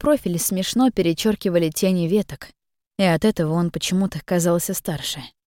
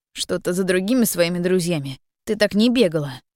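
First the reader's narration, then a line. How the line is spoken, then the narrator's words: Brief snort. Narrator (Russian): коротко фыркнул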